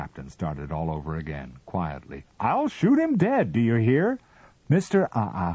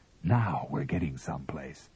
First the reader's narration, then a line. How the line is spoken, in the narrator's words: Aside to his men, he whispered